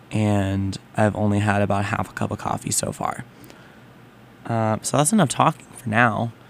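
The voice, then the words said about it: Rough early-morning voice. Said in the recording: “my voice is a little rough right now, considering it's just barely past 7 in the morning”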